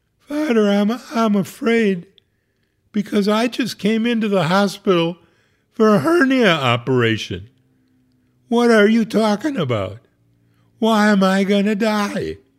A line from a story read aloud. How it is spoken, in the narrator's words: She sobbed